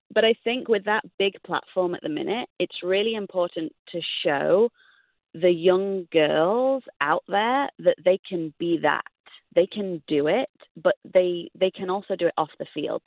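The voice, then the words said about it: English accent. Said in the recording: “with me with an English accent”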